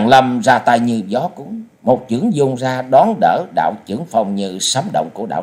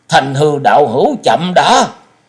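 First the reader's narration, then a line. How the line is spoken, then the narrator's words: Urgent cry. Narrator (Vietnamese): Liễu Phàm đại sư gấp giọng kêu lên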